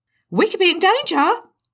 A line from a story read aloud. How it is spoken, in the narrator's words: Tammy screamed